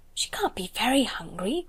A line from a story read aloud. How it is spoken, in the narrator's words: whispered Lavinia